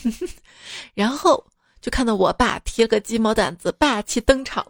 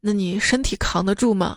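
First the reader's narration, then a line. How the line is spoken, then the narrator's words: Sighing question. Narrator (Chinese): 她叹了口气，又问我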